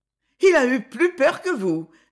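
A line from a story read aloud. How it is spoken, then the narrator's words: Laughing. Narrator (French): dis-je en riant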